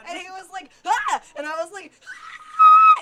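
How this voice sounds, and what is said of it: Shrill, weird screaming. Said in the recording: “I will always take every opportunity to make it sound as shrill and weird as possible ... if your ears just hurt just now”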